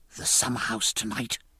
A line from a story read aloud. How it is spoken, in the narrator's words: whispered he